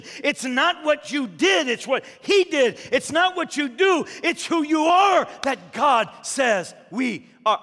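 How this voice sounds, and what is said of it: Yelling, loud emphatic preaching. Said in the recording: “I'm yelling, aren't I? I'm yelling... you're yelling.”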